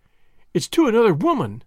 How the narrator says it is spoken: she cried

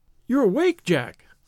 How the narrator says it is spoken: she cried, with a nervous laugh

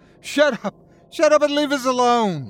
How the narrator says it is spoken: she screamed

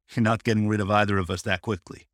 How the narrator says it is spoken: he chuckles

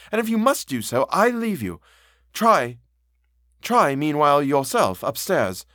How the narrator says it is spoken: I cried

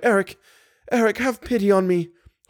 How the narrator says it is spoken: cried

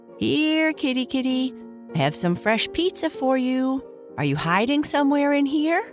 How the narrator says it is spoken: she called out

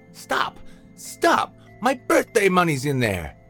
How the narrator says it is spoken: Nathan laughed devilishly

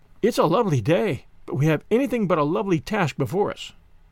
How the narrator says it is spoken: sighed Diana

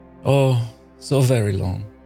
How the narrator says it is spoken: she sighed

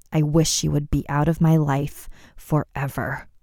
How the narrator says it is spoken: Layla muttered under her breath

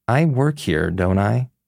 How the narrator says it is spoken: asked with a chuckle

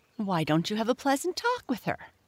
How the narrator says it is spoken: Chirpy Cricket suggested

